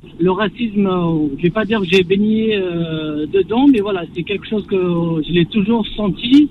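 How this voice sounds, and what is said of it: Kabyle-accented French. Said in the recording (French): “ça s'entend à mon accent, donc je suis kabyle”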